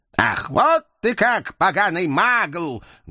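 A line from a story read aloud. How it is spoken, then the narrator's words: Menacing roar, old man. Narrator (Russian): Грозно взревел старичок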